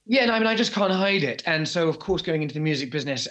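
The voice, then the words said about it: Posh British accent. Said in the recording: “your poshness ... British poshness ... yours is not put on at all. This is, you're OG posh.”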